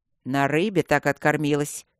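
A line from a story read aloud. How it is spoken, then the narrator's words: Displeased mutter. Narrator (Russian): недовольно буркнул Макс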